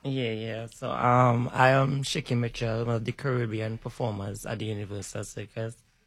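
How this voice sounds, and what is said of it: Noticeable accent. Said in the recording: “Y'all hear that accent?”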